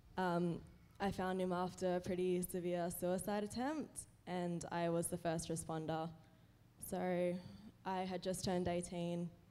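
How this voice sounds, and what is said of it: Shaky, emotional voice. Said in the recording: “my voice is shaking a bit”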